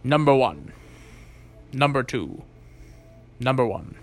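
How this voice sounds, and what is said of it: Jean-Luc Picard impression. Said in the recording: “my Jean-Luc Picard accent. I can barely do... I can do a couple accents, but Jean-Luc Picard is one of the ones I can kind of do. Maybe. ... my Jean-Luc Picard impression”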